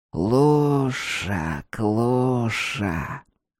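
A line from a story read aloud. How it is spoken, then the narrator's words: Holy fool's hiss. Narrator (Russian): прошипел юродивый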